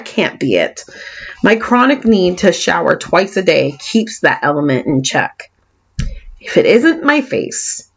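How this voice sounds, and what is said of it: Californian accent with a lisp. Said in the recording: “this lisp and Californian accent”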